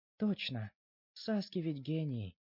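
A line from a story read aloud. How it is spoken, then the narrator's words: Adoring coo. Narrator (Russian): проворковала она с обожанием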